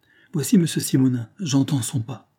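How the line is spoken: Exclaim. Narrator (French): s'écria mademoiselle Victoire, qui devint toute rouge

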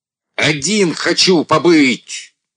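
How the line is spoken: Shouted. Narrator (Russian): закричал Андрей

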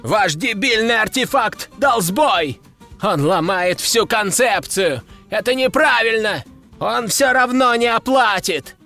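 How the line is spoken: Prolonged shouting. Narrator (Russian): Герцог кричал еще долго

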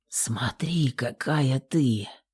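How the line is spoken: Barely audible. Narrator (Russian): едва слышно сказал

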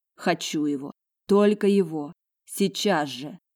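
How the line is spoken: Moaning. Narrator (Russian): Майконг застонал

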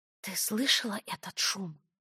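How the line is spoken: Whispered question, friend. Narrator (Russian): шепотом спросила подруга

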